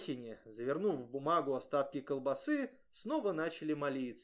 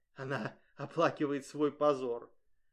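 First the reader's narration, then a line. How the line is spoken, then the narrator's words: Triumphant whisper. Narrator (Russian): Госпожа Луазо торжествующе засмеялась про себя и прошептала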